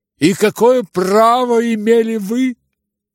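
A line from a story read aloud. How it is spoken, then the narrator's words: Unnatural shriek. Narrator (Russian): завизжал самым неестественным голосом Ипполит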